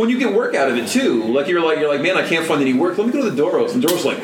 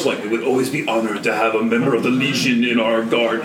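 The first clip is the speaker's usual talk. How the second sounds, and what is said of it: Weird Klingon-like character voice. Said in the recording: “I'm talking in a weird voice. ... Klingon. That's exactly how the Doros talk.”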